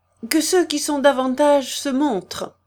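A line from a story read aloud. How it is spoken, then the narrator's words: Cheerful resumption. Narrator (French): reprit gaiement Rose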